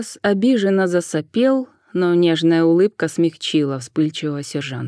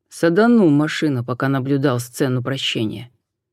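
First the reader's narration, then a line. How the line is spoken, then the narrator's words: Gloomy admission. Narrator (Russian): мрачно признался Суарес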